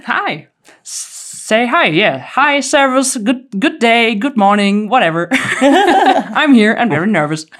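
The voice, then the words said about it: German accent. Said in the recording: “if you didn't pick up the accent, Germany”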